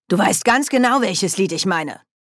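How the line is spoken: Sharp retort. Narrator (German): entgegnete Oma Wetterwachs scharf

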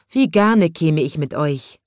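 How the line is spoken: Sighing little boy. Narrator (German): seufzte der kleine Schornsteinfeger

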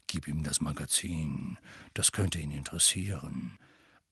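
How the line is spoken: Whispering. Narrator (German): fügte flüsternd hinzu

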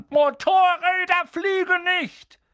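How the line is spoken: Furious shout. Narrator (German): das Gesicht wie eine riesige Scheibe rote Beete mit Schnurrbart, und schrie Harry an

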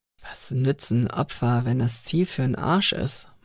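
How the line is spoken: Murmured. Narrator (German): murmelte er

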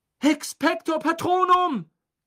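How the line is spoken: Shouting. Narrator (German): schrie

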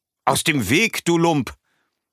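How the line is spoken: Snapped. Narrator (German): schnauzt

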